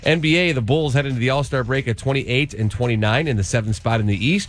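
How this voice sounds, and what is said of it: Stuffed-up, nasal voice. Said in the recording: “You sound a little stuffed up. ... I am a little stuffed up. ... nasally twang ... I got a little sinus thing going on.”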